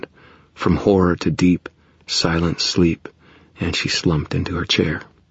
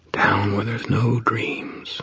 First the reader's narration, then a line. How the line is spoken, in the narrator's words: I whispered to her